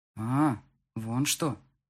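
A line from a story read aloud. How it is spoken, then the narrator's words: Drawling, then noisy exhale. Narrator (Russian): протянул он и шумно выдохнул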